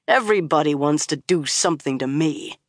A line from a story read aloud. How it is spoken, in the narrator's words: he growled